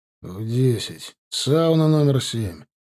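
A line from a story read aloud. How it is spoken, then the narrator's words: Grumbling. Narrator (Russian): пробурчал Руслан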